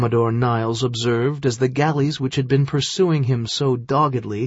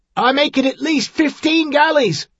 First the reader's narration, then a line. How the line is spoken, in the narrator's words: the seaman shouted down